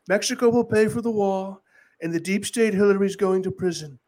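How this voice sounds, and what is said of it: Imitates another person's voice. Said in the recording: “impersonation requests”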